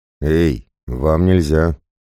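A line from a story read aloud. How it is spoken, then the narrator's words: Uncertain hoarse rasp. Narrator (Russian): неуверенно прохрипел Громила, увидев два десятка готовых к сражению бойцов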